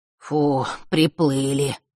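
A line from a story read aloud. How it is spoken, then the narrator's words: Breathed out. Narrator (Russian): выдохнул Маар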